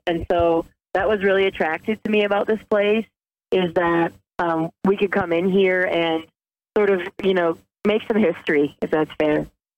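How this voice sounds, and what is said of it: Funny Midwestern accent, slightly Southern. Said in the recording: “I wouldn't peg you for a Chicagoan by the accent ... I have a funny accent ... It almost sounds Southern.”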